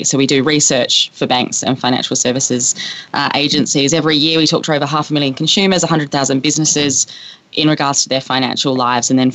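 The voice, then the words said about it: Australian accent. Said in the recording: “five in Sydney, so the accent gives away”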